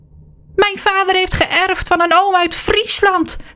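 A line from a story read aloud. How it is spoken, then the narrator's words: Shrieking. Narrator (Dutch): gilt Hilly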